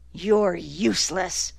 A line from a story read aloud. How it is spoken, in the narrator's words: Izzy said bitterly